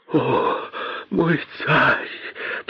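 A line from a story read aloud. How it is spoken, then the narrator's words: Moaned. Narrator (Russian): простонал бедный косой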